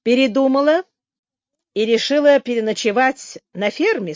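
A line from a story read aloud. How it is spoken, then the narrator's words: Plain. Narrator (Russian): спросил Билл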